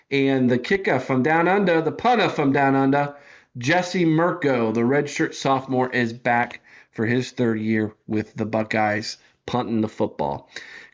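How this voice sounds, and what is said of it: Bad put-on Australian accent. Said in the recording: “that awful Australian accent that you just laid on him ... That's so bad.”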